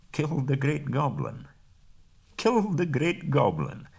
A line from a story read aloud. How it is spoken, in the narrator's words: chuckled fiercely to himself